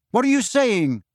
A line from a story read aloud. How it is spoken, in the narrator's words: He said very loudly, so that the words echoed all around the surrounding stone benches